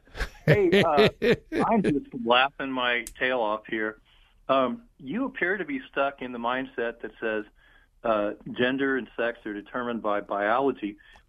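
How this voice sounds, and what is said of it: Southern Ohio accent. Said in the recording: “You can tell by my Southern Ohio accent.”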